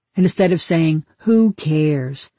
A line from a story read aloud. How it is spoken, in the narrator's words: she snapped